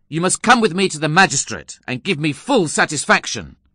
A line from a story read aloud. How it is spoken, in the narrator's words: I exclaimed angrily